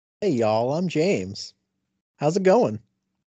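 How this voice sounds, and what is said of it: Put-on Southern American accent. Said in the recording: “He's pretending to have a Southern accent. ... That is not how he sounds.”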